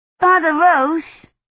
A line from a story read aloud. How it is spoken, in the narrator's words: Agnes shouted